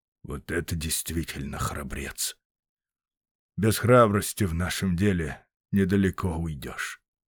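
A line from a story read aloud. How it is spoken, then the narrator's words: Muttering. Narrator (Russian): Пенруф пробормотал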